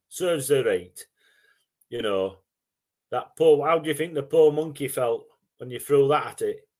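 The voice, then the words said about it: Put-on Yorkshire accent. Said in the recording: “In a Yorkshire accent.”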